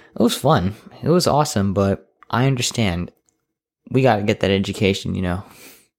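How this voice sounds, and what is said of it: Tired, lazy-sounding voice. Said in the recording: “my voice is a little weird. Also, my voice sounds kind of lazy. It's, god damn it, I'm filming in like 1 a.m.”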